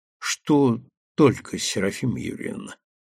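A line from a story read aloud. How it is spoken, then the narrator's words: Quiet question. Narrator (Russian): так же тихо спросил парень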